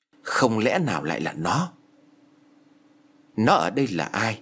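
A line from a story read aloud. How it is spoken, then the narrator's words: Mutter. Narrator (Vietnamese): Hồi lâu anh ta lẩm bẩm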